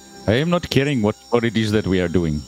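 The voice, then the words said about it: Put-on Indian accent. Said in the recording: “I've got stuck with that damn accent ... Suddenly, ... turns Indian.”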